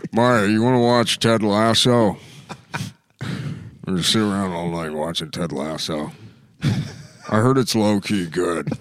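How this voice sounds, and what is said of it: Imitates another person's voice, creepy. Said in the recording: “my Adam impression ... it's Buffalo Bill”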